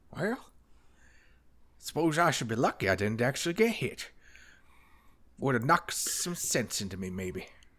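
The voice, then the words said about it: Old man character voice. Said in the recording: “old man voice ... a little sprinkling of Adam Sandler in there every now and then”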